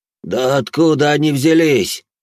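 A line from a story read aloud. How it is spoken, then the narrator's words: Muttered reply. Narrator (Russian): Она в ответ буркнула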